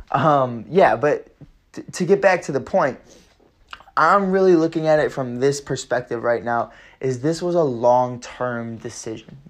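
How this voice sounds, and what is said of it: Strained, mostly lost voice. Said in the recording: “My voice is kind of gone ... I know I sound a little bit different. I sound like a kid”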